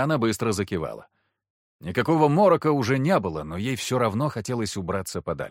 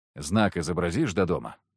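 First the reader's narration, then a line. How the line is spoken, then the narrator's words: Plain. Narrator (Russian): спросил я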